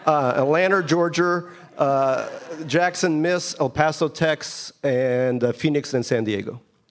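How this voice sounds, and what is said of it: New York Queens accent. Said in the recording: “I have a Queens accent.”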